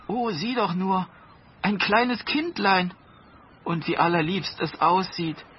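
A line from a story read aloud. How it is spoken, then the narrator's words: Woman exclaiming. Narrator (German): rief die Frau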